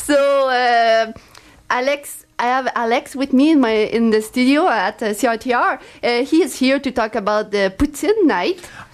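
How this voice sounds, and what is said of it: Strong French accent. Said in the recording (French): “with our very strong French accent.”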